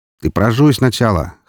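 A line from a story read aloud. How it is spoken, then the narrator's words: Smirking grunt. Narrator (Russian): хмыкнул Роман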